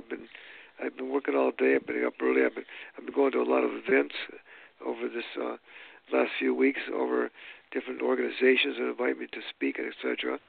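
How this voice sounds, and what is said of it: Rough, tired voice. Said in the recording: “my voice sounds a little rough right now”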